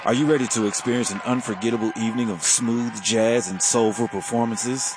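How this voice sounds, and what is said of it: Smooth jazz radio announcer voice. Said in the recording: “put on my smooth jazz voice ... I can't keep that voice up”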